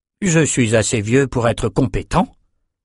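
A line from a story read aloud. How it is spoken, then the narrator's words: Curt reply. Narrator (French): répondit-il sèchement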